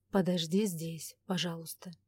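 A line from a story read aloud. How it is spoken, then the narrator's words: Soft request. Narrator (Russian): мягко попросил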